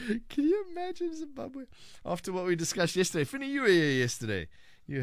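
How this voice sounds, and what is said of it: Usual voice. Nothing is said of it.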